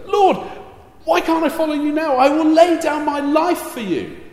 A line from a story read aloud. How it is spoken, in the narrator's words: brash, jumping with 2 feet Peter, blurts out